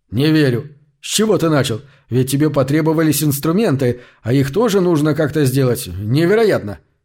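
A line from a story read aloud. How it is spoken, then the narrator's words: Hysterical shout. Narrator (Russian): Истерически выкрикнул он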